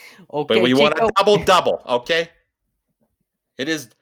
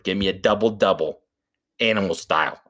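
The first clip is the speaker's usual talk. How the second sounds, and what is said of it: Put-on unidentified accent. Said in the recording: “I don't even know what accent that is.”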